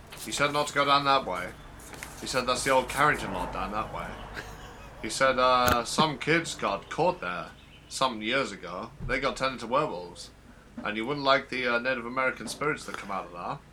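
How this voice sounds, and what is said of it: Peculiar impersonation voice. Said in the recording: “his peculiar impersonation”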